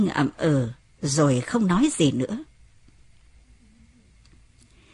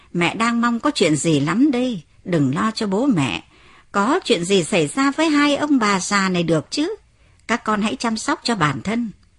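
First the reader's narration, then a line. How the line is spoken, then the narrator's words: Laughing mother. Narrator (Vietnamese): Mẹ cười lớn và nói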